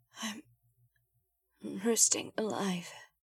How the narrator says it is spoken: she managed to mumble

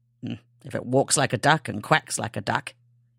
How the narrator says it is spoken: he muttered

